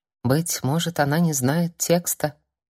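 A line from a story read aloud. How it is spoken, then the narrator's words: Quiet interjection. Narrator (Russian): тихо вставляет Зуана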